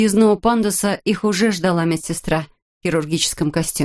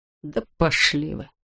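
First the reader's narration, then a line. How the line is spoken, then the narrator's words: Muttering. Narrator (Russian): пробормотал Фурильо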